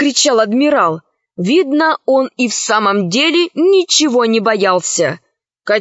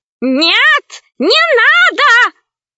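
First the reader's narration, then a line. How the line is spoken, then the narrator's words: Old man shouting. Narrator (Russian): закричал старик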